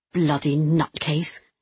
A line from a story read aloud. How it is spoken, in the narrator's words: Louise spat